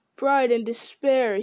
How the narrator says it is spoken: he cried

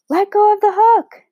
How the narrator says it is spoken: Matt screamed

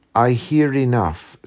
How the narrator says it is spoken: said she

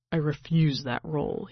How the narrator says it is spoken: he mutters vehemently

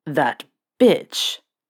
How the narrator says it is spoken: Sirius growled

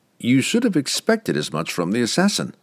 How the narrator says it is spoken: Drizzt replied, and he gave a small laugh

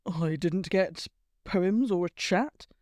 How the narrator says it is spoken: Blaze muttered

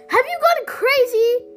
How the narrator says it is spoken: shouted Allison

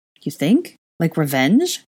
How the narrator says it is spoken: Harry asked

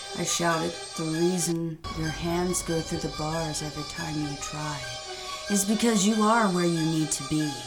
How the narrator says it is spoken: the tall man replied in a calm tone

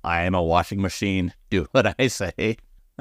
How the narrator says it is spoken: He laughs again and says, once again, in a robot voice

